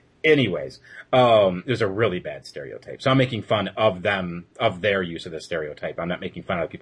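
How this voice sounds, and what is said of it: Usual voice. Nothing is said of it.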